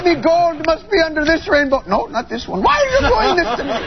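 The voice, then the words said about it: Bad leprechaun impression. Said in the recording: “worst leprechaun impression.”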